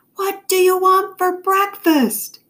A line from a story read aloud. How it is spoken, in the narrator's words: Mom yelled